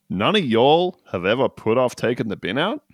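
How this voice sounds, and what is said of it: Put-on Idaho accent. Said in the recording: “That Idaho accent.”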